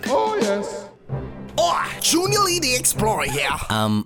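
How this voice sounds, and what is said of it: Poorly done put-on accent. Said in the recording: “That accent is talking good at all.”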